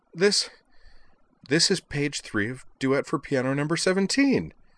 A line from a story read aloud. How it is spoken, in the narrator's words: he cried